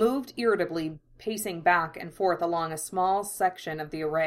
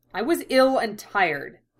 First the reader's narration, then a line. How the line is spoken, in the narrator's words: Ed snapped